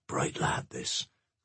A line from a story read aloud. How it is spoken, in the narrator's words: whispered the official